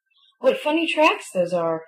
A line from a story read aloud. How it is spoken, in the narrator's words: he exclaimed